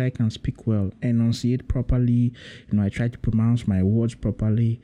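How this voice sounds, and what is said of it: Usual voice. Nothing is said of it.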